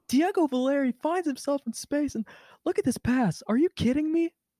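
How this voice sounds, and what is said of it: Taylor Twellman commentator impression. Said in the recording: “my Taylor Twelman impression ... get into character”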